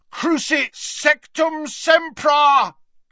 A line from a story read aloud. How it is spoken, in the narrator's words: bellowed Harry from the floor